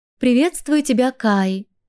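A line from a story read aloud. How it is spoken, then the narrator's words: Tender sing-song female voice. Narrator (Russian): нежным голосом пропела стрекоза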